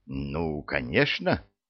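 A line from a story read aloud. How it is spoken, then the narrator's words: Mumbling. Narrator (Russian): промямлил адвокат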